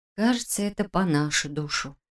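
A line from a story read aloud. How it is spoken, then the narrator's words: Muttered. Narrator (Russian): пробормотала Саша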